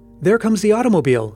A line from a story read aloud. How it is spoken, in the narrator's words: exclaimed Paul excitedly